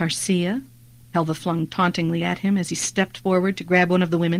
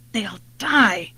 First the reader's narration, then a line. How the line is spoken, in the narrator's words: muttered Jennin dejectedly